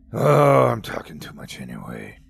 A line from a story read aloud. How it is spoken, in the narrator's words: he grumbled